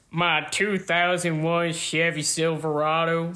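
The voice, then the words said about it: Exaggerated Southern US accent. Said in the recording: “In my most southern accent.”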